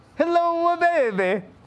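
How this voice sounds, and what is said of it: Decent put-on Italian accent. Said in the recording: “You want to hear it in Italian? ... That was actually an accent. That was decent. That was all right.”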